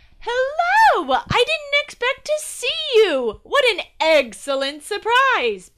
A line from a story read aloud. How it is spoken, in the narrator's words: Peter yelled